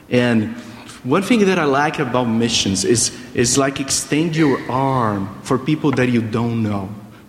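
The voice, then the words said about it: Brazilian accent. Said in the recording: “a Brazilian here ... you listen to my accent”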